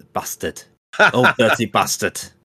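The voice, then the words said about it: Put-on northern English accent. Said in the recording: “You've got to say it in a northern accent.”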